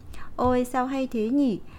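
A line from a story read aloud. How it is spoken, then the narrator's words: Bright cheerful laughter. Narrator (Vietnamese): hoàng tử bé bật cười giòn giã vui tươi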